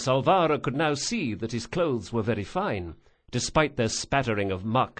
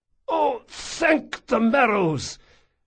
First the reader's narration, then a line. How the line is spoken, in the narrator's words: choked out the man